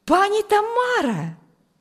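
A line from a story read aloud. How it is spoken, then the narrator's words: Joyful exclamation. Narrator (Russian): радостно воскликнул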